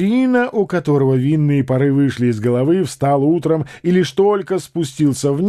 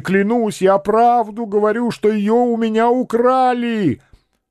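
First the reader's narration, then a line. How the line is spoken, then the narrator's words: Shouting even louder. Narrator (Russian): Каландрино закричал еще сильнее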